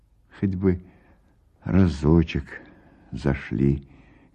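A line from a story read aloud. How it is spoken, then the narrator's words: Quiet. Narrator (Russian): говорит тихо Пелагея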